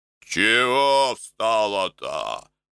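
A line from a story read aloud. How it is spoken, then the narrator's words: Growling monk. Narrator (Russian): точно зарычал инок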